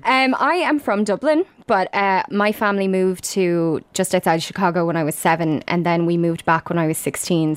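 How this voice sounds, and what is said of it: Dublin accent with slight American twang. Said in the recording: “where is your accent from? ... there was like a little American twang ... formative years in America, which have stuck around in the form of my accent”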